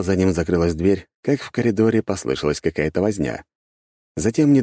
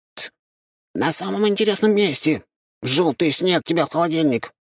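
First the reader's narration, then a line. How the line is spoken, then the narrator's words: Squeaking. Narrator (Russian): запищал он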